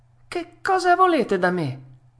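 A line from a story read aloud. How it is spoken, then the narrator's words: Frightened shout. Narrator (Italian): gridò Pinocchio, rizzandosi tutto impaurito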